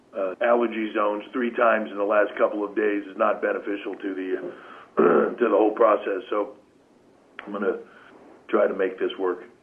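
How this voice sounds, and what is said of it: Slightly raspy voice. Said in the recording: “my voice is a little bit raspy”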